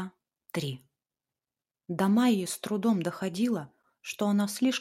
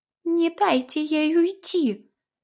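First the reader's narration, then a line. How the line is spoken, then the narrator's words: Shrill shout from behind. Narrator (Russian): неслось в спину визгливое от Тани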